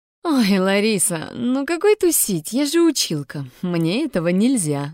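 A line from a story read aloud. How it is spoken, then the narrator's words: Laughing. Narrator (Russian): начала смеяться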